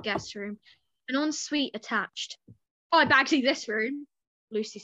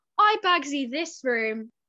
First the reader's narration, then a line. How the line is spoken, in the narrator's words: Flo shouted down the corridor